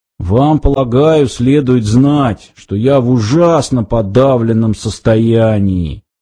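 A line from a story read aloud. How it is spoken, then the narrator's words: Muffled. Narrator (Russian): глухо произнес он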